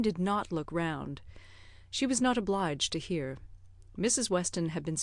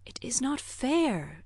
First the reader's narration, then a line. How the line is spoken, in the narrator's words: said Emma in a whisper